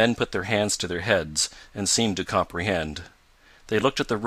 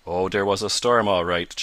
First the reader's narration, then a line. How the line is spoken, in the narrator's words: chuckled Eradicate